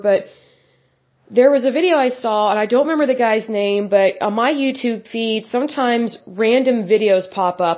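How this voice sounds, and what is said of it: Rough, sick-sounding voice. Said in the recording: “apologize for my voice, I'm still, um, getting over this cold or whatever”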